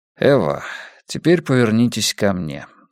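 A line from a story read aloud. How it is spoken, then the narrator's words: Calm. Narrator (Russian): спокойно сказал я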